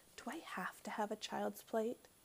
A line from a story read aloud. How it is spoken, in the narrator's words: Ramona whispered